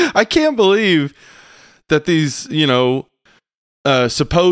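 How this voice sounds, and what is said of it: Usual voice. Nothing is said of it.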